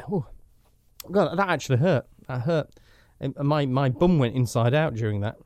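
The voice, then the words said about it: Mild Yorkshire accent. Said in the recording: “my strange middle of the road Yorkshire accent”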